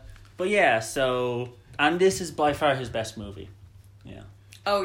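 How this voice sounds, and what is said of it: Usual voice. Nothing is said of it.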